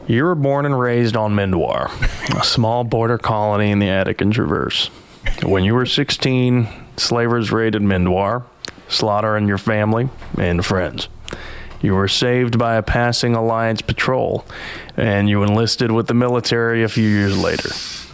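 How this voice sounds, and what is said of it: Put-on Appalachian accent. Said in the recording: “if you'd like to have an Appalachian accent, just don't move your upper lip when you speak”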